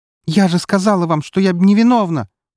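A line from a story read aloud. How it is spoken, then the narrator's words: Almost shouting. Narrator (Russian): практически закричала Яна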